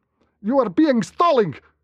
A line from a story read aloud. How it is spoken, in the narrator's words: shouted Lederman, his accent thickening as his anger rose